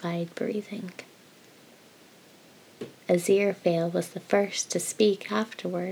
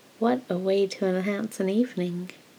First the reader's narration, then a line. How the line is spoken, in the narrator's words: Aziraphale said with a little chuckle